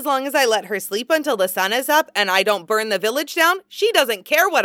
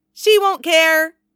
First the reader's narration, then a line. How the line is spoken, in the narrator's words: Kagami insists, cheerfully certain